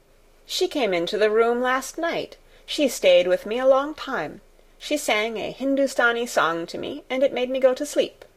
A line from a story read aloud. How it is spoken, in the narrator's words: said Colin